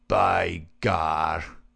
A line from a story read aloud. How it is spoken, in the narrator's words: McGinty flushed an angry red and then burst into a roar of laughter